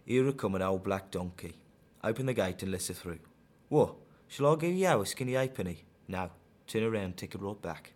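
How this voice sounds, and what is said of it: Broad Dudley West Midlands accent. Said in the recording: “that's proper broad Dudley for you”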